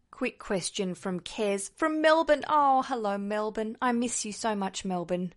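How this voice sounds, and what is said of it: Australian accent. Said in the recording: “I'm actually sitting in London at the moment with this accent”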